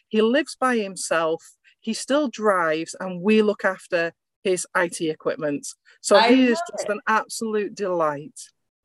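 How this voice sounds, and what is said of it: English accent. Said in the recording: “I hear your accent... So what you're saying is you have an English accent. Is that right?... Yes, that's right.”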